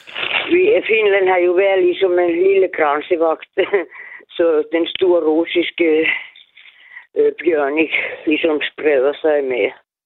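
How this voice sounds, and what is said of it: Finnish accent in Danish. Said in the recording (Danish): “Har du østeuropæisk baggrund? ... Finsk ... Det var bare din accent.”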